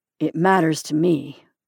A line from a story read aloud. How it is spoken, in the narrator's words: he said in a low voice